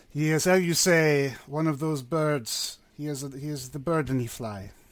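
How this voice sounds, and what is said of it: Bad put-on French accent. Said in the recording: “with the French the accent... in a very bad French accent”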